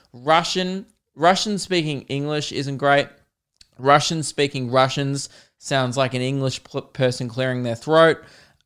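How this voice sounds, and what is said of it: Australian accent. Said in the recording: “I'm fascinated with your accent ... Australian accents. We don't even speak correctly”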